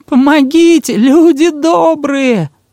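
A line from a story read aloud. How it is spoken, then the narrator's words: Thin shrill cry. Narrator (Russian): Она тонко вскрикнула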